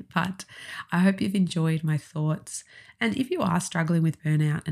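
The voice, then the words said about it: Husky voice from a cold. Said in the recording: “I've got a bit of a cold, so this husky voice”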